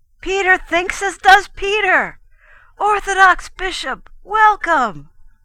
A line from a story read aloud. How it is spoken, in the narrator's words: the Orientals whom he joined shouted